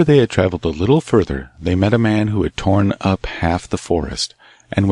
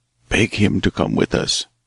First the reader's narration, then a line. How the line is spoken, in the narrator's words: whispered the hermit